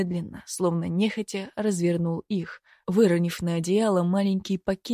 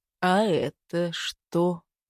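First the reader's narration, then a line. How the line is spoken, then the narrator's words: Dangerously calm question. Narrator (Russian): Опасно спокойным голосом поинтересовался Изюбрь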